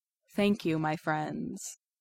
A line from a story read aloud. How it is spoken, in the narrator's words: he says gravely